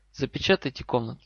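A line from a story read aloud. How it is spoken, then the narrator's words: Quiet. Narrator (Russian): тихо сказал Гарри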